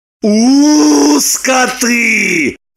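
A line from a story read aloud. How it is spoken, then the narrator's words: Howling. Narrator (Russian): взвыл Роман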